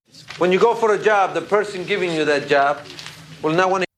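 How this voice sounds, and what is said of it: Mexican accent. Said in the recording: “If you guessed Mexican accent, you are correct. ... This accent has been parodied a lot”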